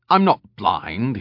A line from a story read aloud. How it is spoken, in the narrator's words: Hebel snapped